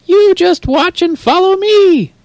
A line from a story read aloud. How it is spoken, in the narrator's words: Screeches the piccolo